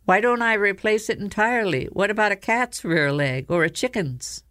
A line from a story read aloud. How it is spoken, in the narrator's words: she said brightly